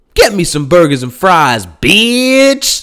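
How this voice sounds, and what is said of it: Put-on West Coast accent. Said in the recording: “Like in that West Coast accent”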